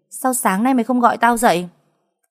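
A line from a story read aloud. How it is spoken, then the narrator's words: Shout. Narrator (Vietnamese): Nó hét lên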